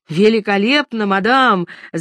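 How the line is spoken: Shout. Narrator (Russian): закричал он

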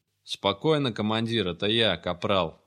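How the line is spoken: Muffled grumble from hood. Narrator (Russian): пробурчала фигура из-под капюшона

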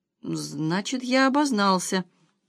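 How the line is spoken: Uncertain. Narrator (Russian): неуверенно сказал первый

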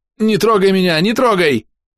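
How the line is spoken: Frightened scream. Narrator (Russian): закричал Никс

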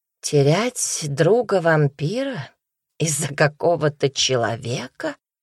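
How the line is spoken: Barely audible murmur. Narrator (Russian): пробормотала она чуть слышно

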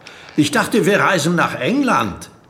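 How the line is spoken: Calling into a box. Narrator (German): rief Alex Yao in die Kiste

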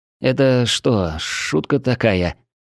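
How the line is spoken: Trembling whisper. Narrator (Russian): дрожащим голосом прошептал я

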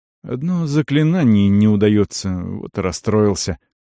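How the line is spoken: Soft. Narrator (Russian): сказал он мягко

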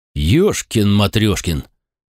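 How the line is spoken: Astonished exclamation. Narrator (Russian): воскликнул пораженный Александр

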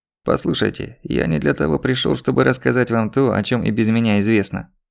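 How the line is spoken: Creaky voice. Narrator (Russian): проскрипел он

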